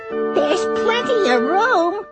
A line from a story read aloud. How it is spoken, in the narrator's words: laughed the bug